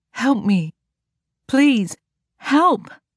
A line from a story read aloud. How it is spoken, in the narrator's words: Her words slurred together as if she were high on some drug